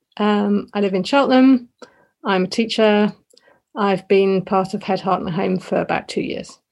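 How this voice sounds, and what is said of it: British accent. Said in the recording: “I live in the UK. You can probably tell from the accent.”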